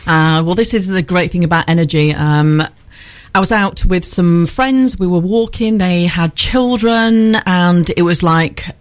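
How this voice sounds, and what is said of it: Northern English accent, slightly posh. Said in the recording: “I've been doing a posh accent because I'm on radio, but yeah, it's a northern accent. ... We can hear that twang”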